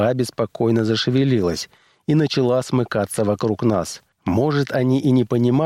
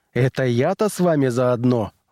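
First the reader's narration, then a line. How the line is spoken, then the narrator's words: Indignant exclamation. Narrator (Russian): возмущенно воскликнул я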